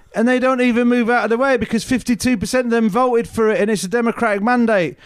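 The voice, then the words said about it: Imitates another person's voice. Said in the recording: “That was my impression of Stuart Lee.”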